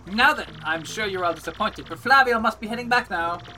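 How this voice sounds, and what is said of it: Put-on foreign character accent. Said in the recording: “the accent I'm going for is like a variant of like Fez from That 70s Show”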